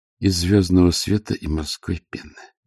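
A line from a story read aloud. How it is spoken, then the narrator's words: Whisper. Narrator (Russian): шепот чары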